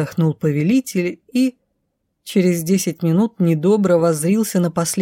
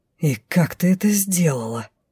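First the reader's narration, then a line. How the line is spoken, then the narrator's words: Offended admiring hiss. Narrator (Russian): прошипел мужчина, но в обиженном сопении восхищение было почему-то больше, чем раздражение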